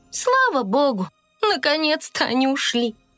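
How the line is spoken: Weary. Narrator (Russian): устало произнесла фея

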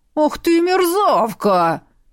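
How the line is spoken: Roaring troll. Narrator (Russian): взревел тролль

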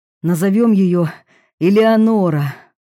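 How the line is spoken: Breathless exhale. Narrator (Russian): выдохнул

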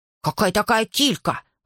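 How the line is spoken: Offended question. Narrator (Russian): обиженно спросил Колька

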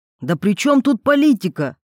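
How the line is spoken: Almost shouting. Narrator (Russian): почти крикнул Антон

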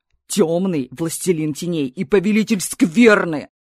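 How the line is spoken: Thunderous bark. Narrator (Russian): рявкнул он, и от его голоса факелы погасли на секунду

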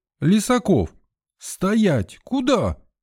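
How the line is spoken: Yelling nurse. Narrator (Russian): заорала мне вслед медсестра

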